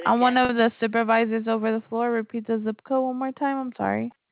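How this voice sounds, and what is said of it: Noticeable foreign accent. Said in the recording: “Your accent is beautiful, but I didn't understand what you said”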